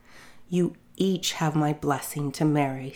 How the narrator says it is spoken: said the father

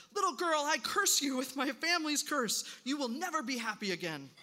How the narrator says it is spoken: The Archduke shouted

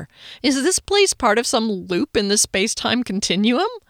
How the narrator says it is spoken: I chuckled at my humor, though I was afraid I might sound a little hysterical

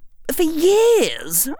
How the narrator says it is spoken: I begged her

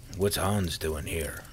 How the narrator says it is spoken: asked quietly

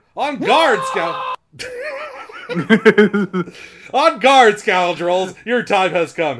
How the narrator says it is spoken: he cried

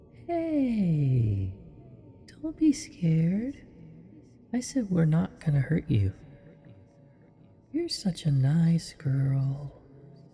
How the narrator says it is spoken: cooed in my ear

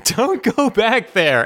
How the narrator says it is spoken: Doug just fucking screams

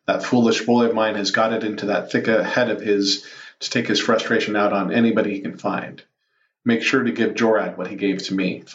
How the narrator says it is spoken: Thon said

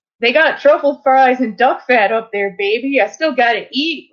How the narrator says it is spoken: laughed Guy

